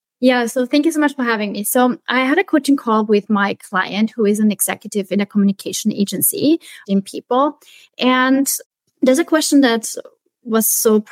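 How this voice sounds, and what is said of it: Austrian-accented English. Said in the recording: “What's the accent? Very pretty. ... From Austria.”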